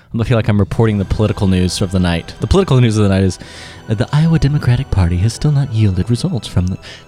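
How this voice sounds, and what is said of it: Calm public-radio newsreader voice. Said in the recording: “This is the most NPR-ish episode ... I'm usually so bombastic ... how's my NPR voice”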